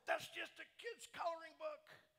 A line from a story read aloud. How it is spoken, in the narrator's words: a guy's voice from over here just yells out